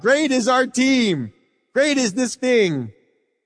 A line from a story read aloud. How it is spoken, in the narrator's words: For 2 hours, they cried out